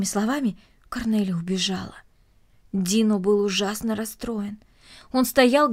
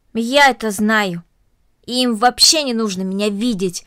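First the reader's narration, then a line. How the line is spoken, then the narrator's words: Angry. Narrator (Russian): сердито произнесла Корнели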